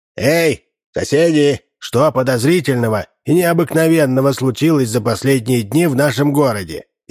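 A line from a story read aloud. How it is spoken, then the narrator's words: Loud shouted question. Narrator (Russian): громко на весь двор спросил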